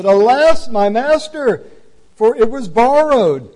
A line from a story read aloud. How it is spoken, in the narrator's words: cried out and said